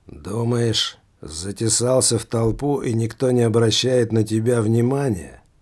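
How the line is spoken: Threatening voice. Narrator (Russian): Угрожающим голосом сказал лувертюру церковный служка

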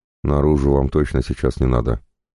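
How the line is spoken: Calm. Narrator (Russian): спокойно сказал

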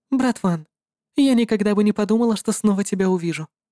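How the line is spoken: Calm. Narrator (Russian): спокойно сказала Хайди

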